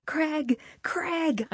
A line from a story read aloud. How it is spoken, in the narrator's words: screeched